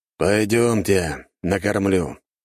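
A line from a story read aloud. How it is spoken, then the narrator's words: Sighing. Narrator (Russian): вздохнул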